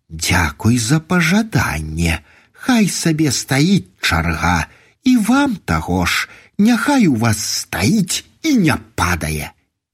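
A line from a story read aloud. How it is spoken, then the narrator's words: Unkind smiling speech. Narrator (Belarusian): Насцічка усміхнулася так нядобра і гавора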